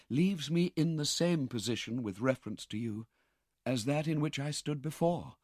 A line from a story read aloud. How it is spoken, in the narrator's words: replied Rose softly